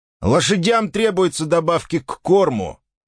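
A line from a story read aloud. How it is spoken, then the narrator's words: Shouted. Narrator (Russian): крикнул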